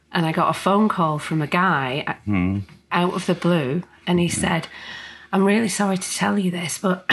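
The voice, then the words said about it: Choked-up, throaty voice. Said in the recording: “excuse me, I'm not crying. I've got a frog in my throat.”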